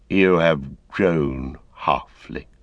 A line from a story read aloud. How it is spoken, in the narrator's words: he said